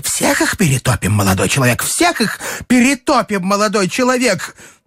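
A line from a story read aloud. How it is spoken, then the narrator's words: Woman shouting. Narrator (Russian): полная дама в пенсне кричала ему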